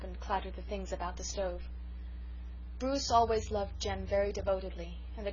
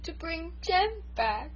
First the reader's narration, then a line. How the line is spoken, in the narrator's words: sobbed Bruce